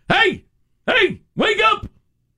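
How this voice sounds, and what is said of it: Shouting. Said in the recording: “Now he's shouting at him ... he's bellowing at him”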